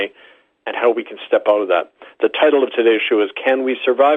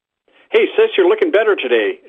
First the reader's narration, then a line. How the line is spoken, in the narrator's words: exclaimed a paunchy man